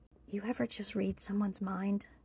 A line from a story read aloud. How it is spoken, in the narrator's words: Tripp whispered